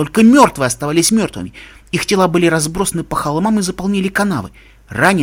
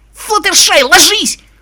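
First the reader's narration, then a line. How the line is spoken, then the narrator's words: Shouting. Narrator (Russian): закричала Рейнбоу Дэш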